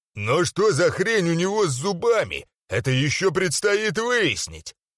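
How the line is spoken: Loud. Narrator (Russian): громко сказал Маухур-поджигатель

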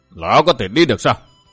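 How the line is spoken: Cold voice. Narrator (Vietnamese): giọng nói lạnh lùng đó

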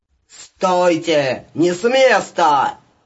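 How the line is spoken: Yelling. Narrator (Russian): Заорал

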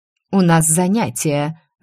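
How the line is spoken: Angry, several voices at once. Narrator (Russian): злобно ответили сразу несколько заведующих

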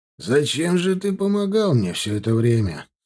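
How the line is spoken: Even tone, hard edge. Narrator (Russian): спросил Кулым совершенно ровным тоном, в котором снова появились нотки жесткости

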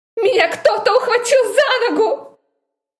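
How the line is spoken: Hysterical shout. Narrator (Russian): Истерично прокричала

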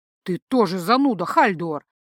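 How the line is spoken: Snort. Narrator (Russian): фыркнул Ранрео

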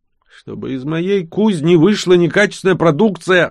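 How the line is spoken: Furious dwarf's roar. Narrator (Russian): орал разъяренный гном, чуть ли не срывая крышу строения мощью своего голоса

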